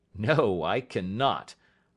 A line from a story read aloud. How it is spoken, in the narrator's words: I answered sharply